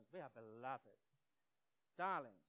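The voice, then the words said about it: Put-on English accent. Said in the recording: “That sounds nice in an English accent.”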